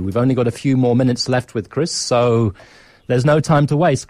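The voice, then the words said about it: British accent. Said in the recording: “I've lived in South Africa for 30 years now, but I still carry this strange British accent.”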